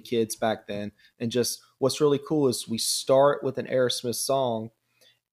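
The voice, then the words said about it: Southern American drawl. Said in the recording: “I'm hearing a bit of an accent. ... I'm actually from Georgia. ... I have my southern drawl.”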